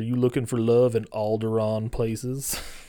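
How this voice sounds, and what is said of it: Imitates another person's voice. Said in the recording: “my Dan Fogler impression.”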